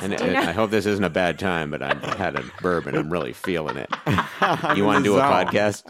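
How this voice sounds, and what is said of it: Drunken mumbling imitation of another person. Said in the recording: “What is this impersonation of me? ... the waspy mumble acquired through alcohol”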